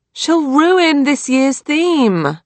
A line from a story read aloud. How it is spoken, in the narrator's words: Lily moaned